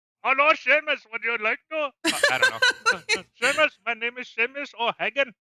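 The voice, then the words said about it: Attempted put-on Scottish accent. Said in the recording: “Can you please do that accent with a Scottish accent, please? ... Scottish accent.”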